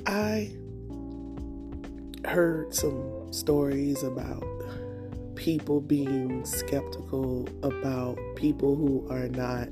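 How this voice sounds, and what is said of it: Morning voice cutting in and out. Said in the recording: “It's a little early morning, that's why my voice is a little in and out”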